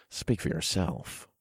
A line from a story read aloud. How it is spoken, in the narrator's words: I muttered